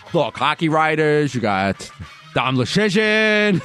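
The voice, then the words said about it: Imitation of a colleague's voice. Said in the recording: “read that name in your Gambo voice”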